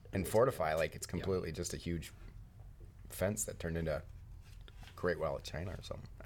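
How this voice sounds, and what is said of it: Northern accent. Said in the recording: “your Northern accent there is really coming out”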